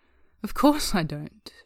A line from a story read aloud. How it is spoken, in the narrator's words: Foolish laughs